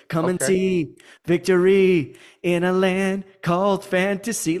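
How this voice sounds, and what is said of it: Strained attempt at singing falsetto. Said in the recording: “I can't hit that Maurice White falsetto right now”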